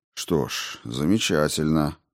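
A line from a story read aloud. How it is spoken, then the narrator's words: Muttered. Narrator (Russian): пробормотал он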